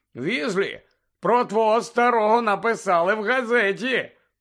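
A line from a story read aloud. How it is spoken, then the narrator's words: Very loud, showing off. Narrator (Ukrainian): говорив дуже голосно, аби почули всі у вестибюлі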